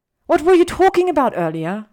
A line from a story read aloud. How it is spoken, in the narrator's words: she blurts out